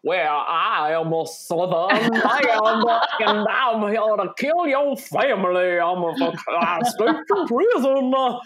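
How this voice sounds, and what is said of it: Mock Robert De Niro fake Southern accent. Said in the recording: “Cape Fear is probably the worst use of a fake accent I've ever heard in any movie ever ... Robert De Niro is like ... This is not good.”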